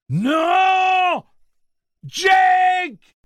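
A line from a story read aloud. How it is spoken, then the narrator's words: Two voices screaming together. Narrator (French): hurlèrent Roland et Eddie d'une seule voix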